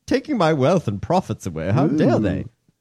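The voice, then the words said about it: Put-on British accent. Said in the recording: “I don't know why I'm giving them a British accent.”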